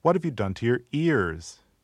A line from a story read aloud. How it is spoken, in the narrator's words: she cried